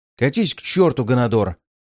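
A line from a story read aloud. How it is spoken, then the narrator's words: Snapping back. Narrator (Russian): огрызнулся офицер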